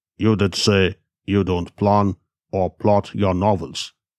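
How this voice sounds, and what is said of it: Husky male character voice. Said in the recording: “the Nigerian said in his husky voice.”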